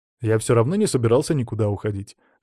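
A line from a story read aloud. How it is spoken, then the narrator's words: Snorting. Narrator (Russian): хмыкнул я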